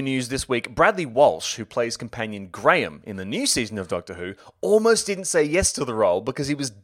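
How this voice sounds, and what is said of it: Usual voice. Nothing is said of it.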